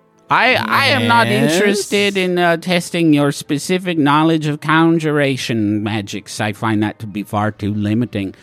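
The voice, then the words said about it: Hard-to-place put-on accent. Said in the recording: “Much like your accent ... Yes, it's implacable, isn't it? ... you can't place it”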